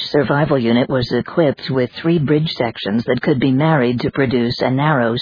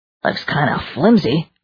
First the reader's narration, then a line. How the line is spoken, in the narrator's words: Richard remarked uneasily